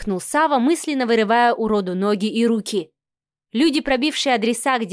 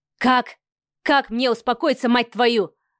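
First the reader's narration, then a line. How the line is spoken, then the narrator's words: Growled. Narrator (Russian): рычал Савелий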